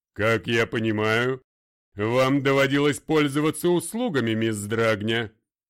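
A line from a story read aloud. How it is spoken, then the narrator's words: Deep commanding voice. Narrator (Russian): ответила своим властным грудным голосом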